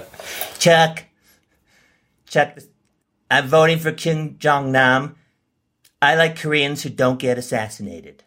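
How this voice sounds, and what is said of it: Donald Trump impression. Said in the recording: “impression. ... Chuck, this is Donald Trump.”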